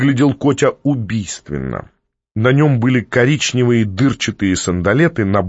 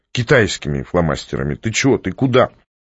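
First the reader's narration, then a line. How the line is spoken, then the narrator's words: Sigh. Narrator (Russian): Котя вздохнул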